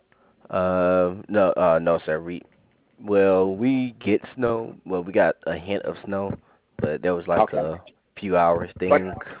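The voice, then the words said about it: Southern US accent. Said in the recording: “You are down south, right? ... I hear that accent.”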